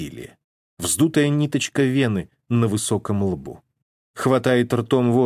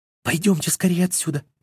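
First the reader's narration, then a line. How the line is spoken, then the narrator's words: Frightened babbling. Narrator (Russian): испуганно лепечет служанка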